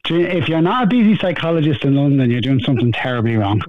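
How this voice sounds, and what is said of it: Dublin Irish accent. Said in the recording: “that's not a London accent ... I'm not putting on this accent either ... So you're a dub.”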